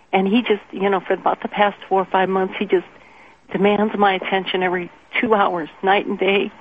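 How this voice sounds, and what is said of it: Emotional, shaky voice. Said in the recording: “I'm a little emotional about this”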